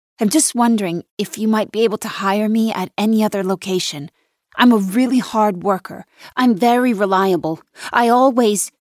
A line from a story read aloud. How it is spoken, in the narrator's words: blurt out